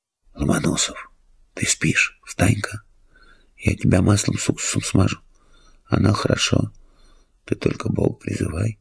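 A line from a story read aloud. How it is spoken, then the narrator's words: Whisper. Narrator (Russian): Робинзон зашептал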